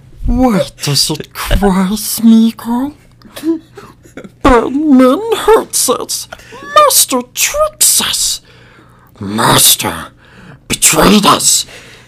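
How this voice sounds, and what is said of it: Smeagol character voice impression. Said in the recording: “a Smeagol impersonation ... here's my Smeagol impersonation ... get into character”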